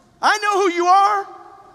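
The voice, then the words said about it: Raised, loud voice. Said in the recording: “raise my voice, there's exclamation points in there.”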